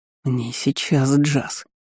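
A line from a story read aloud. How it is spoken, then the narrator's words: Through clenched teeth. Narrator (Russian): процедил сквозь зубы Стейнер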